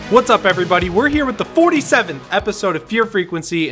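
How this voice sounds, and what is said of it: Hoarse, strained voice. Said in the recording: “I kind of lost my voice. I've been shooting at work all day”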